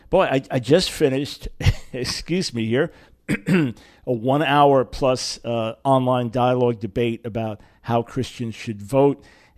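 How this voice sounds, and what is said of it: Scratchy, hoarse voice. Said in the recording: “my voice is a little scratchy ... suddenly my voice sounded very hoarse”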